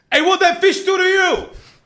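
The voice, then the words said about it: New Yorker accent impression. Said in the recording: “going to do an impression ... this is a vegan New Yorker walking down the street”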